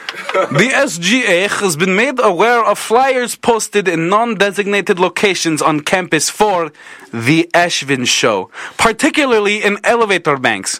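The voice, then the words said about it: Put-on Ukrainian accent. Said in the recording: “what accent should I read this email in? ... Ukrainian”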